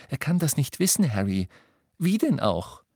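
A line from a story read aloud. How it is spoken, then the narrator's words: Frightened cry. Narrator (German): rief Hermine mit angsterfüllter Stimme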